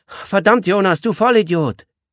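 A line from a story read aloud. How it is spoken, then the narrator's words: Girl calling from background. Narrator (German): Das Mädchen rief aus dem Hintergrund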